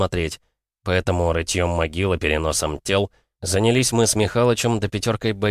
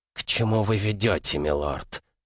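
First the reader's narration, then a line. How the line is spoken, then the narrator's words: Hissing. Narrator (Russian): прошипел его собеседник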